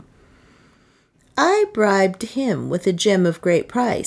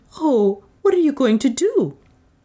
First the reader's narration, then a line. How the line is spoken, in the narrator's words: the latter exclaiming